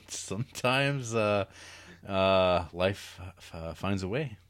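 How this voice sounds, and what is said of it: Jeff Goldblum impression. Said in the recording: “That was a great Goldblum impression,... you're getting way, way better at that.”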